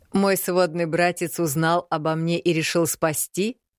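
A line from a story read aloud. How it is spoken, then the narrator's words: Open laughter. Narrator (Russian): откровенно рассмеялся Мракьян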